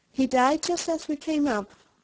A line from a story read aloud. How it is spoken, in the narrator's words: answered Bryce